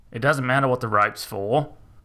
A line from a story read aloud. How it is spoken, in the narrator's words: Old Man Shanky growled back at him, annoyed by this interruption